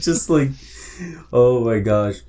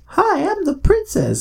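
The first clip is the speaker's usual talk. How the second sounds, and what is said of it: High little girl voice. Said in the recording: “a little girl voice.”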